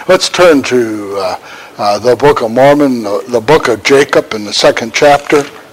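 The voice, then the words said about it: Strained, fading hoarse voice. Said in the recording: “I'm losing my voice. Can everybody still hear me?”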